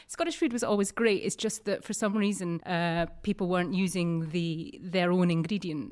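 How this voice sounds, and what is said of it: Distinct Scottish accent. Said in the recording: “you've got this distinct Scottish accent. You're from Edinburgh.”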